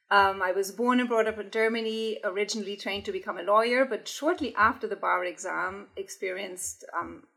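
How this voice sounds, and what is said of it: German accent. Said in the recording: “I'm from Germany, as you will pick up from my accent.”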